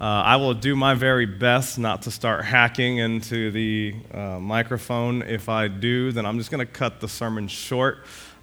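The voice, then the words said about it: Raspy, strained voice. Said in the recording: “my voice has been struggling some since Monday, so you're going to have to endure with my raspiness”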